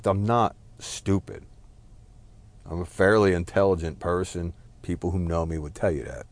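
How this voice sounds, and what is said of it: Speaks with a noticeable accent. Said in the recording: “I got a shitty accent. It makes me sound like a fucking clown.”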